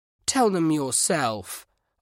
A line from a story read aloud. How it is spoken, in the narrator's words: Oliver grumbled